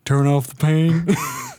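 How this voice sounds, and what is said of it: Imitates another person's voice. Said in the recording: “I'm a voice actor, so that was my Shaq impression.”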